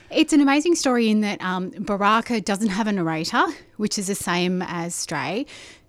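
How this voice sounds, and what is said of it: Slightly out of breath. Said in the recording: “I'm a little out of breath because I rushed here.”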